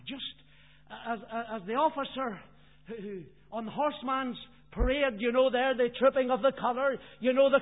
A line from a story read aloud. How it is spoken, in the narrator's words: the commanding officers shout very loud that all the commanders and all the troops would hear